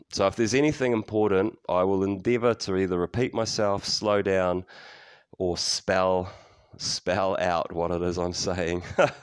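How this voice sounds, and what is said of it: Fast New Zealand accent, flat vowels. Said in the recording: “I do have a funny old accent. I speak fast. Kiwis tend to be quite flat with our vowels. I can certainly not enunciate my words particularly well.”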